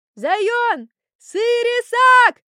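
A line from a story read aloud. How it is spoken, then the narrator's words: Happy yelling. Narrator (Russian): орал счастливый Аркашка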